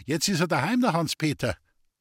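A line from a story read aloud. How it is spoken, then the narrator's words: Maid calling out. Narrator (German): rief ihm die Hausmagd zu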